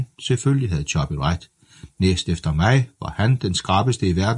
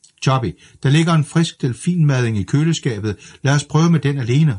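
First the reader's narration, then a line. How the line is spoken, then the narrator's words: Exasperated shout. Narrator (Danish): råbte jeg, og var på nippet til at give op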